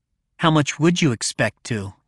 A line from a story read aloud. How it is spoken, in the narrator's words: Jen said